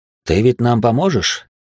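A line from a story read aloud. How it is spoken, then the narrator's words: Calm question. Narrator (Russian): поинтересовался спокойно он у меня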